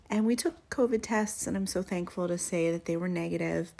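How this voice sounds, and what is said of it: Slightly congested, sick-sounding voice. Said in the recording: “my voice sounds a little funky, it's because all of us here in my family have been getting over colds ... snotty and sore throats and coughs”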